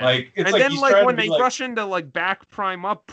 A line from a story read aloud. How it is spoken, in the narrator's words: Prime yells at them